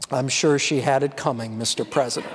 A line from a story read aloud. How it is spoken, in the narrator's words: the ambassador leaned over and whispered